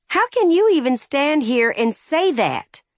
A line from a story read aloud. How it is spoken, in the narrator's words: she cried